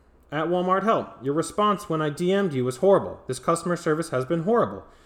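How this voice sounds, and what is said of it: Yelling angrily. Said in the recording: “I'm yelling.”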